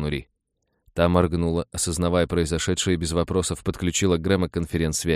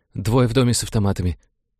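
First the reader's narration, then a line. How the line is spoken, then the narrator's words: Excited, trembling voice. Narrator (Russian): голос пич взволнованно подрагивал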